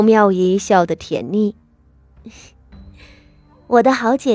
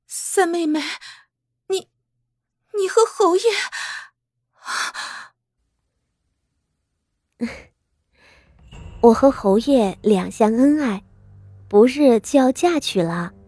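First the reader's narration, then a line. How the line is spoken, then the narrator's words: Breathless, panting. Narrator (Chinese): 喘息道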